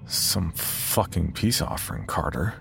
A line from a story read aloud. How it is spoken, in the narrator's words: I mumble to the darkness